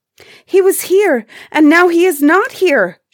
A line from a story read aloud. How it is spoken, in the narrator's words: she cried